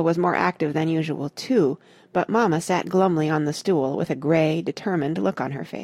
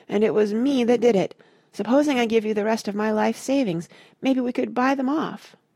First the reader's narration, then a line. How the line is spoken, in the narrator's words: Tucker moaned